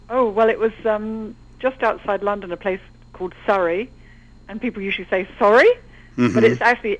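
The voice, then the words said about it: British English accent. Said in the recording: “you have a British accent.”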